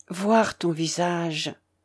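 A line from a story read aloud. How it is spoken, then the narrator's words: Low muffled murmur. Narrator (French): murmura-t-il sourdement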